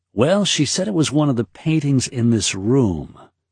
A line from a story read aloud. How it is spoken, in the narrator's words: Lucal said